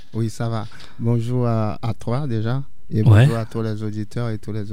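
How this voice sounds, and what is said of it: Haitian French accent. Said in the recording (French): “j'aimais l'accent... Ça vient d'où cet accent?... on est des Haïtiens.”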